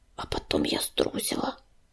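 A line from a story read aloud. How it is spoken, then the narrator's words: Barely audible confession. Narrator (Russian): еле слышно призналась медянка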